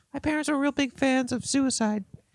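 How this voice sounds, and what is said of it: Puppet character voice. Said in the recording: “doing a puppet voice”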